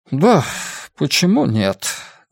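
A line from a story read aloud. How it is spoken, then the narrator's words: Tired voice. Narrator (Russian): голос Энди звучал устало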